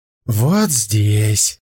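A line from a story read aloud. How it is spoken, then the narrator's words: Pleased purr. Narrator (Russian): довольно промурлыкал Хэ Лань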